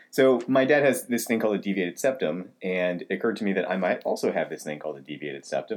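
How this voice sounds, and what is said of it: Deep, congested voice. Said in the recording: “I've always been kind of congested, which probably explains my deep voice right now”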